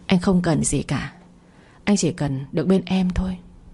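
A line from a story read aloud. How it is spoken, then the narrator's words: Tender, gentle voice. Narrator (Vietnamese): giọng nói dịu dàng như nước của Phong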